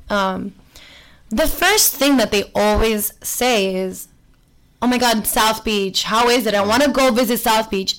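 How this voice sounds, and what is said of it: Miami accent. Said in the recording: “they've automatically guessed that I'm from Miami because of my accent”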